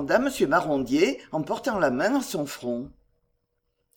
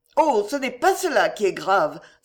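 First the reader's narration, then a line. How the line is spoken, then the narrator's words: Exclaiming wife. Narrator (French): s'écria sa femme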